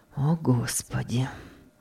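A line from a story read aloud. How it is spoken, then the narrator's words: Breathy undertone. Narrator (Russian): выдохнул вполголоса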